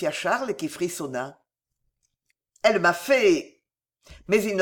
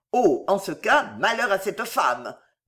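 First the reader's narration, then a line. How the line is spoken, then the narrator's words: Growled. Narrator (French): gronda le duc d'Angoulême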